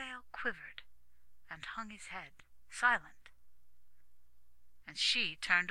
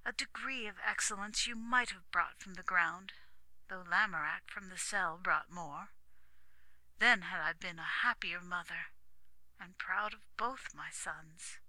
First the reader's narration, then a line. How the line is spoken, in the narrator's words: said the queen wistfully